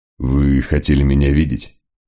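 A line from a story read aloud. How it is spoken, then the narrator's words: Forced calm, casual. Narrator (Russian): Мегре старался говорить спокойно, как человек, пришедший в гости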